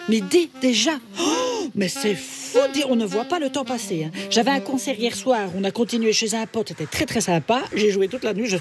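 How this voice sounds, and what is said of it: Put-on Belgian French accent. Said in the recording (French): “pourquoi tu parles avec cet accent bizarre? ... Gudule de Belgique. Ah ben voilà, c'est peut-être pour ça que j'ai un accent”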